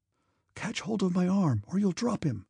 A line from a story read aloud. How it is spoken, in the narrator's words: one of the servants say in a frightened whisper